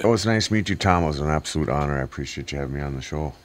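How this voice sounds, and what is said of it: Low, deep radio voice. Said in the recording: “got a pretty good radio voice ... you got a voice for radio. It's that low voice.”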